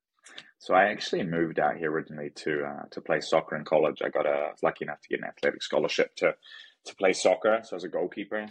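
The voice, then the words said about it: New Zealand accent. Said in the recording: “based off that accent, I could tell you're not actually from Manhattan Beach ... I grew up in New Zealand”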